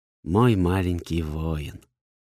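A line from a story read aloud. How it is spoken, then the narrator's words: Barely audible whisper. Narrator (Russian): Еле слышный шепот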